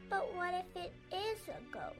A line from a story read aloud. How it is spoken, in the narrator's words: Annie whimpered